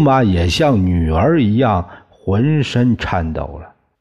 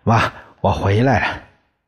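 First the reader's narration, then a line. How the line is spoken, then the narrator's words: Sweet, smiling call. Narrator (Chinese): 周游笑着……他甜蜜地叫着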